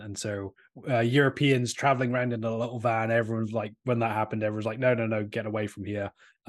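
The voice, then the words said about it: British accent. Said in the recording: “originally British, and so we have this European accent.”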